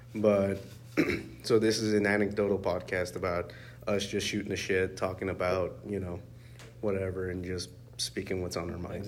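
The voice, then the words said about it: Raspy, deeper sick voice. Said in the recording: “I'm sick. So if my voice sounds a little bit more raspier and like deeper than normal”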